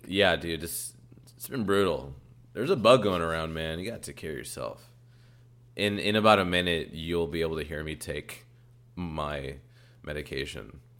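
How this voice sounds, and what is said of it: Sick, rough, low-energy voice. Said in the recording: “my voice is shit. I'm not as enthusiastic. I just sound like garbage.”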